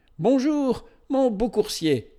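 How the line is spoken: Exclaimed. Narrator (French): s'écria

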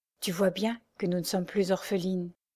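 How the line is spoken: Murmur in ear. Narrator (French): Louise murmura à l'oreille de son amie

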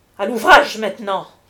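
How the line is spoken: Exclaiming. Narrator (French): s'écria-t-il

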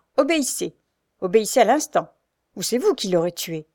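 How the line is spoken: Harsh reply. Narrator (French): répond durement Frochard

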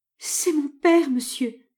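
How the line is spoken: Stammering through sobs. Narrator (French): bégaya Mme Bernard, la voix entrecoupée de sanglots

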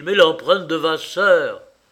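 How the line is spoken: Shouting. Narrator (French): hurlait-il

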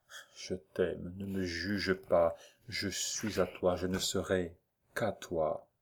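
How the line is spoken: Added softly. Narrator (French): Valentine, il est vrai, avait ajouté tout bas

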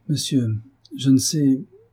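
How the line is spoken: Stammering young woman. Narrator (French): répondit la jeune femme en balbutiant

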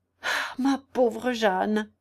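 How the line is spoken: Exclaimed. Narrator (French): s'écria Cadet

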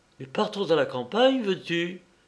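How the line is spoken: Abrupt exclamation. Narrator (French): s'exclama-t-elle brusquement

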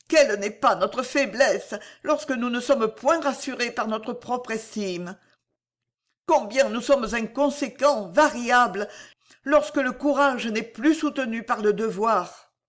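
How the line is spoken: Sighing exclamation. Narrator (French): s'écria-t-elle en soupirant

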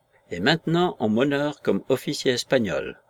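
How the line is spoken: Calm voice. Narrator (French): conclut-il d'une voix calme

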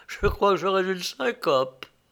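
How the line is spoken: Laughing. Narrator (French): dit Lou en riant

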